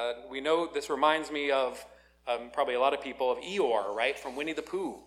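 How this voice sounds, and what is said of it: Usual voice. Nothing is said of it.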